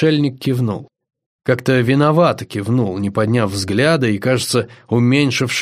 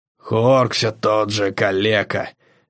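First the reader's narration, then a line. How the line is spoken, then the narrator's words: Growling, howling berserker. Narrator (Russian): берсерк Орха рыкнул с подвыванием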